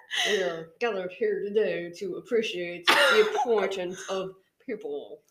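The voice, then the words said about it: Imitates another person's voice. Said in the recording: “It's supposed to be a Barack Obama. ... It doesn't. I know it doesn't. ... They do a better impression than I do.”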